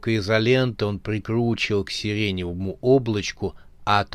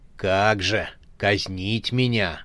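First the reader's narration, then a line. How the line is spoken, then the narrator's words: Grumbling. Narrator (Russian): бурчал рогатый демон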